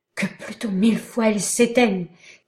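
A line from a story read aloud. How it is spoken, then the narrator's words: Horrified exclamation. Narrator (French): s'écria Cora glacé d'horreur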